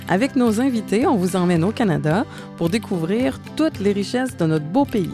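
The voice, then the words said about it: Montreal Québécois French accent. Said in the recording (French): “vous entendez mon accent, je suis de Montréal”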